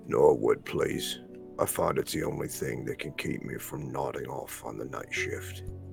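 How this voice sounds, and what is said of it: Deep, lumberjack-like character voice. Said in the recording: “That was a good deep voice. ... he's kind of lumberjacky.”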